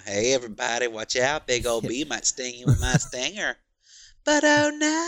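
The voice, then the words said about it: Put-on annoying creepy character voice. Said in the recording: “they did a similar voice ... Just like this really put on annoying, like creepy voice”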